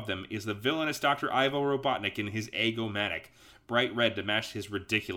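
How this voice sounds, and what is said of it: Usual voice. Nothing is said of it.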